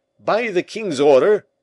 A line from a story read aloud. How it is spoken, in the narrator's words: called out to the sentinel